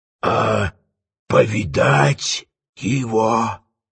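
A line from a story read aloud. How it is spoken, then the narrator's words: Quieter tempting whisper. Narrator (Russian): Еще тише и искушающе шепнул Фиелла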